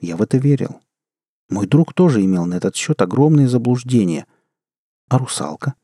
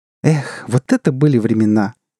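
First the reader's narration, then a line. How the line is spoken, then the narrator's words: Laughing. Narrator (Russian): она рассмеялась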